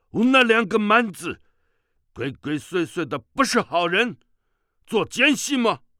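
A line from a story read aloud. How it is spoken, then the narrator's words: Loud stern challenge. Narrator (Chinese): 西夏武士 大声喝道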